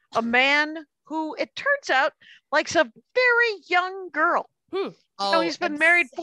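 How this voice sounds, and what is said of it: Usual voice. Nothing is said of it.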